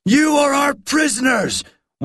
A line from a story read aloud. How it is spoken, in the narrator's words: one man shouted